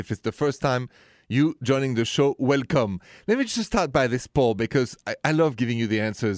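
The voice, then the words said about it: French Parisian accent. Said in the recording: “the accent is from Paris”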